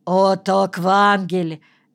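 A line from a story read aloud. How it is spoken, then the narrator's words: Harsh bark. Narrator (Russian): рявкнул один из них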